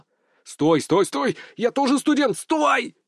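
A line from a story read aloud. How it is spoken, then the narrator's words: Loud yelling. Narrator (Russian): заорал я, перекрывая звон в ушах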